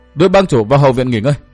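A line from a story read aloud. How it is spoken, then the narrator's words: Shouted command. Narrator (Vietnamese): Thủy Tiên quát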